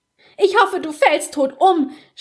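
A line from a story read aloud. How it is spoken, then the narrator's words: Shouted. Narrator (German): schrie sie, als Basta sie aus dem Zimmer zerrte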